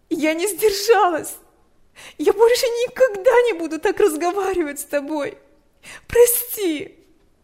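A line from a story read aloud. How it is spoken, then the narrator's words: Sobbing. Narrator (Russian): Она разрыдалась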